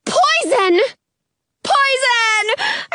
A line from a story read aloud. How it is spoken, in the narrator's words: repeat in a scream